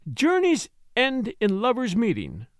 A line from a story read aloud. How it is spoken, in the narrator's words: Lennox laughed